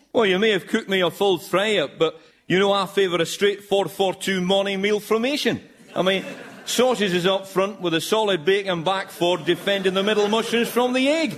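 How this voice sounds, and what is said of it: Miserable Scottish accent. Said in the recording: “my miserable Scottish brogue”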